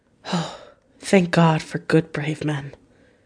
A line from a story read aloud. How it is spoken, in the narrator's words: She sighed